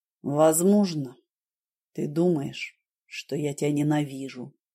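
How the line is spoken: Gentle. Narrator (Russian): мягко сказал он

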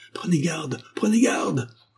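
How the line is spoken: Crowd yelling in alarm. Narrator (French): vociférait la foule, autour d'eux, à la vue du saint en péril

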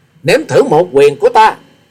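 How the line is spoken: Thunderous roar. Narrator (Vietnamese): Hòa sĩ Kiệt gầm lên như sấm

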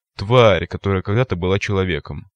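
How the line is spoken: Gloomy answer. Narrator (Russian): мрачно ответил

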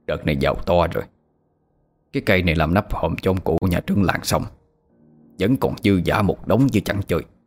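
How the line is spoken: Old man muttering to himself. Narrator (Vietnamese): Lão tự lẩm bẩm

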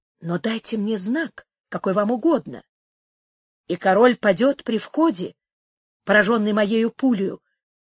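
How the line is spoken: Whisper. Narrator (Russian): шепнул мексиканец

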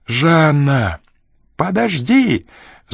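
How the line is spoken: Shouting. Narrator (Russian): закричала она

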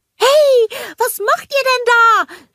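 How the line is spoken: Calling after them. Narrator (German): rief Olaf ihnen hinterher

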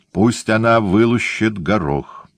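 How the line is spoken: Dry, curt. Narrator (Russian): сухо сказала Сара

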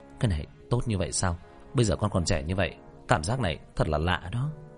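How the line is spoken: Twitching wry mutter. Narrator (Vietnamese): Khóe miệng của Diệp Thiếu Dương co giật lẩm bẩm

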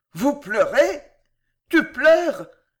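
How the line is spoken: Frantic exclamation. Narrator (French): s'écria Louis éperdu

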